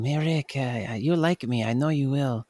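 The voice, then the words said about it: Imitates actor's strong foreign accent. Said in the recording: “He's got that really strong accent”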